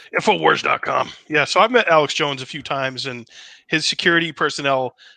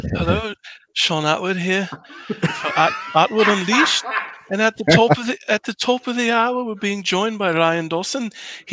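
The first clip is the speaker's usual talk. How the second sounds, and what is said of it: Imitates another person's voice. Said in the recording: “do an Atwood impression.”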